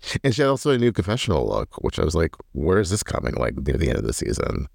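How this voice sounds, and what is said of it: Usual voice. Nothing is said of it.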